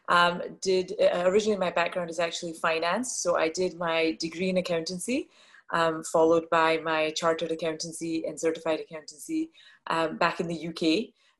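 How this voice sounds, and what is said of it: Slight Scottish accent. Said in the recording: “I was born and brought up in Scotland, which is a little bit of the accent that you will hear”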